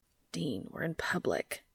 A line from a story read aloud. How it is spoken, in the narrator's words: he hissed